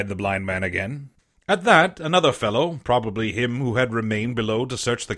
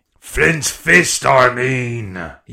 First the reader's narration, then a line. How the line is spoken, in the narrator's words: cried